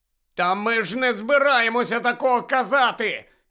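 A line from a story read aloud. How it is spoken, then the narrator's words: Shouting. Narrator (Ukrainian): закричав Гаррі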